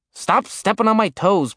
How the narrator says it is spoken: Blitz grumbled

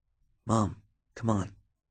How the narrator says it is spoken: Park whispered

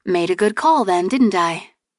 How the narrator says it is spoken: He chuckled

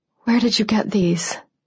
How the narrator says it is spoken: I whispered

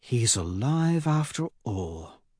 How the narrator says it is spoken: Cassius says quietly

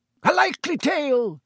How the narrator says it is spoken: roared Sir Cadogan

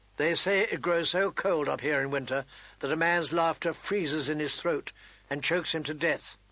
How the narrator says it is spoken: Ned said evenly

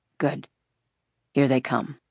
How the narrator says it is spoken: he said in a low, relieved voice

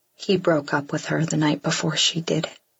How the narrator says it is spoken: he says quietly

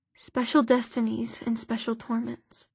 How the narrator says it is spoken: Isabel whispered

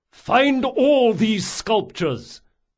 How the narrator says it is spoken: Reynard yelled

